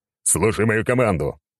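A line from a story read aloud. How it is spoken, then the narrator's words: Barked command. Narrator (Russian): гаркнул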